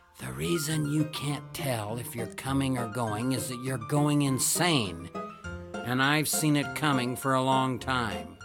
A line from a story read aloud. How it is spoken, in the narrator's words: whispered